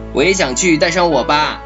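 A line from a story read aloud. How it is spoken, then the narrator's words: Excited shout. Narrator (Chinese): 雪宝兴奋地拍着手喊道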